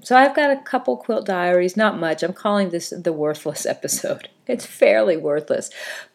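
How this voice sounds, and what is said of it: Congested, sniffly voice. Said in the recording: “You might be able to tell from my voice, I have had a cold... just a little bit sniffy”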